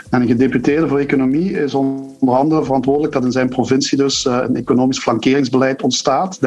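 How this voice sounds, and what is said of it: Belgian Limburg Dutch accent. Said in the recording (Dutch): “Aan mijn accent horen weet je wel ongeveer waar, dat was in Limburg.”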